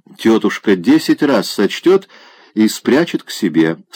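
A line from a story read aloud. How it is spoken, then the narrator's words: Plain. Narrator (Russian): сказала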